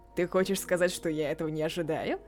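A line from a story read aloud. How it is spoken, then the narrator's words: Mocking threat. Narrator (Russian): Словно насмешливо угрожая, Мори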